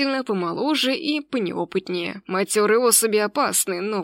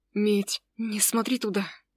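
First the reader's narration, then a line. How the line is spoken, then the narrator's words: Strained whispered plea. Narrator (Russian): Сдавленным шепотом попросил Ник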